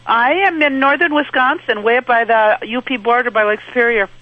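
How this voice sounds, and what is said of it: Upper Peninsula Michigan accent. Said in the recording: “I hear it in your voice, eh? ... The Uper accent ... It's a Uper accent for UP, the UP of Michigan.”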